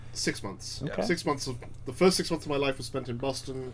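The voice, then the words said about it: Non-American accent. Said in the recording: “I am the most American person you can possibly imagine, apart from the accent”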